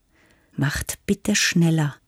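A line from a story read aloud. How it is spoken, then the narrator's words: Forced calm. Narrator (German): sagte Kara und strengte sich an, ruhig zu klingen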